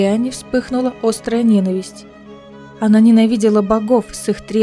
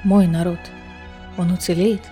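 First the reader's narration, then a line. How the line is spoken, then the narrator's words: Quiet calm question. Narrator (Russian): Тихим, спокойным голосом спросила Нехемия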